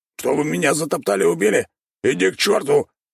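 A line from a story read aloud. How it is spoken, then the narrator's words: Barking shout. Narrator (Russian): рявкнул желтый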